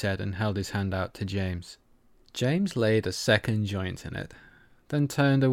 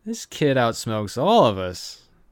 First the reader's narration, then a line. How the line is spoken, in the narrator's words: Asher laughed